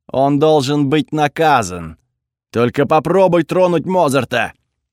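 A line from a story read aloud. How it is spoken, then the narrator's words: Growling. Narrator (Russian): прорычал я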